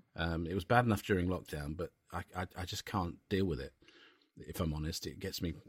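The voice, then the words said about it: Upset, emotional voice. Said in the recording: “I'm getting upset... You can probably hear it in my voice.”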